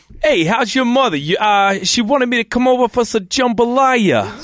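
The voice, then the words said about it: Put-on Louisiana Brooklyn accent. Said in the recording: “your best Louisiana Brooklyn accent”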